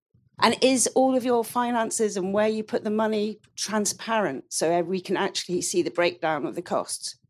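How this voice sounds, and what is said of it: Nervous, anxious speaking voice. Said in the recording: “I hate speaking, so that's why I sound nervous.”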